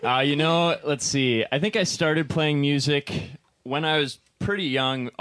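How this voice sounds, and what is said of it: Slightly out of breath. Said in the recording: “I'm a little out of breath ... Keyboard players out of breath”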